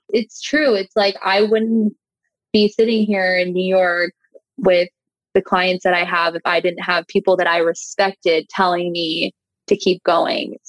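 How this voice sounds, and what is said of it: Emotional, choked-up voice. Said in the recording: “oh my God, I'm getting emotional.”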